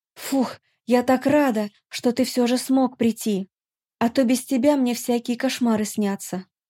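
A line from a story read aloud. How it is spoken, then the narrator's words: Relieved sigh, agitated voice. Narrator (Russian): я облегченно вздохнула и произнесла взволнованным голосом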